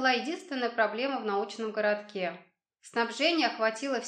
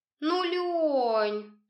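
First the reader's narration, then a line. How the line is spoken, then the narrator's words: Languid whining young woman. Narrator (Russian): томным голосом заныла молодая женщина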